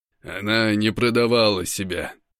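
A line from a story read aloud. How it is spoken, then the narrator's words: Said coldly. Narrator (Russian): бросаю я холодно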